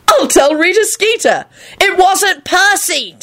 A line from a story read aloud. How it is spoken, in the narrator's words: Timothy said loudly